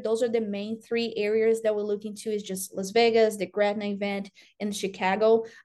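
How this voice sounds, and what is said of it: Brazilian-accented English. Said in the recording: “judging by your accent, you're not from the South or the Midwest ... I'm from Brazil”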